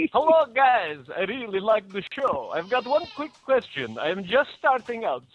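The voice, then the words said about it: Bad Transylvanian Dracula accent. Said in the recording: “That was a terrible accent. ... I was trying to do, you know, it's Transylvanian, it's kind of vaguely Bulgarian. ... I said Dracula, not Yakov Smirnoff.”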